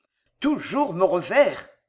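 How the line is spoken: Anxious growl. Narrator (French): gronda le jeune duc avec une évidente inquiétude

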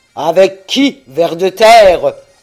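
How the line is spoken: Giant shouting. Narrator (French): hurla le géant

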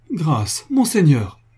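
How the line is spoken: Pleading incredulous exclamation. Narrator (French): s'écria Franz d'une voix suppliante, ne pouvant croire à ce qu'il entendait

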